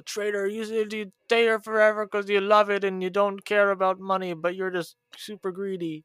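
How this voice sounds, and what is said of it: Whiny babyish mocking voice. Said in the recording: “No, that wasn't a Boston accent. That was a whiny baby accent.”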